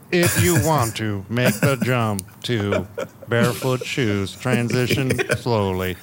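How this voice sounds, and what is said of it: TikTok robot text-to-speech voice. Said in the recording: “that TikTok with the robot voice ... Do people still do the robot voice on there?”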